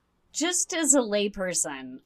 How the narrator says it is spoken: I scoffed at this explanation

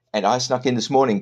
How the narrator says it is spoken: Quince said

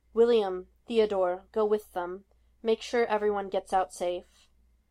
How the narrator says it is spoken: In spite of her exhaustion, her voice was strong when she said

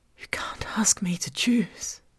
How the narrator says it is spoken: I whispered

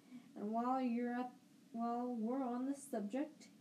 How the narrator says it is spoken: Uncle Vernon snarled

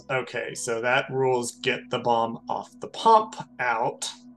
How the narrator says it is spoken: Wynn mutters to themselves

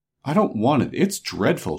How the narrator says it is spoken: she exclaimed

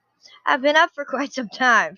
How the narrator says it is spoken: she said, laughing

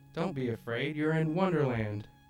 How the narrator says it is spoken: she said in a cheery voice

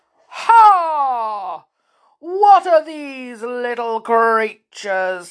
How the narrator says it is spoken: said the giant in a voice that boomed like a thunderstorm

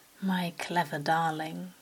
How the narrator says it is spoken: Crawley purred his approval

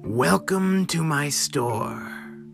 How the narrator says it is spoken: the merchant said with a grisly rasp

